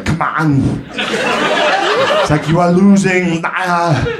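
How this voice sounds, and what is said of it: Imitates another person's voice. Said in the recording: “I hate to do an Arnold impression”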